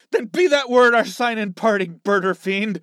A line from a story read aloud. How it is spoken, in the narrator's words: shrieked